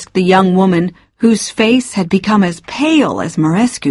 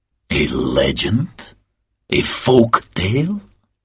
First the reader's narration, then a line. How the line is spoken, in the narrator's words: asked Marescu in a low voice